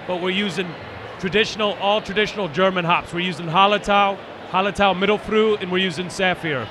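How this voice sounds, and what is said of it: German accent. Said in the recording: “I hear the accent. Where's that from? ... I moved here from Munich”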